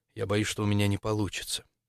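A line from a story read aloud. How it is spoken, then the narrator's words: Quiet. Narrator (Russian): Максимилиан произнес тихо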